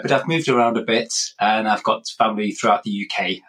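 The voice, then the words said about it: English accent. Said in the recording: “I'm originally from England myself, hence this accent”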